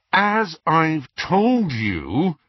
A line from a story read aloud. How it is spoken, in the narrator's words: he said through gritted teeth